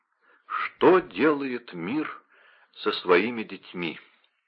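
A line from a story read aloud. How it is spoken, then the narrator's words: Muttered. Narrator (Russian): Вольфганг пробормотал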